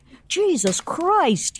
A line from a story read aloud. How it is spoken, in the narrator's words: yelled Peter